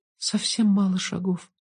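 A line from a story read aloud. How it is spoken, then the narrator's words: Child whispering. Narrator (Russian): сказала девочка шепотом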